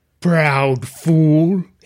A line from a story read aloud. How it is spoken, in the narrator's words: he rumbled